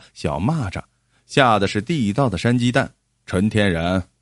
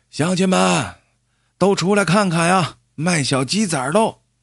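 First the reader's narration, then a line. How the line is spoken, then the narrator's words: Old man calling out. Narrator (Chinese): 老汉坐在车前喊着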